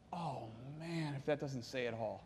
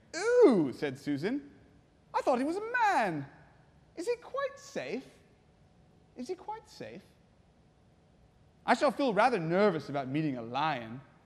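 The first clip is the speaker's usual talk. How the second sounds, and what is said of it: Put-on English accent. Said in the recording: “I'll do an English accent here.”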